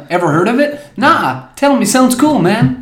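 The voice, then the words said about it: Silly put-on advert-style voice. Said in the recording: “Why are you speaking that stupid voice?”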